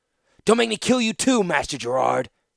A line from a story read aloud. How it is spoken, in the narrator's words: he rasped